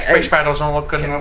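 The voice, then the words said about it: George Lucas impression. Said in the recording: “your George Lucas impression.”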